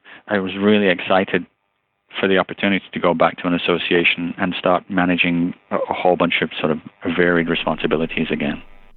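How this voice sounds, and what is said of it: British Liverpool Scouse accent. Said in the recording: “you have an accent. ... I'm originally from the UK ... the base of my accent, if you will, is from Liverpool. I'm a Scouser”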